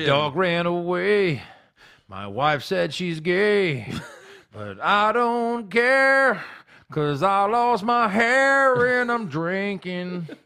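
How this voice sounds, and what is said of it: Mock country-music singing voice. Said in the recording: “It's a pretty good impression of shitty country music.”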